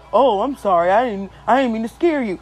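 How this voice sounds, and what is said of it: Imitates another person's deep, manly voice. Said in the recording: “She sounded like a whole dude”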